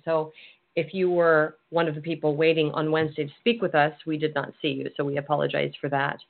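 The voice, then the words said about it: Slightly hoarse voice. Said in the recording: “I'm a little hoarse today ... you're a little hoarse today”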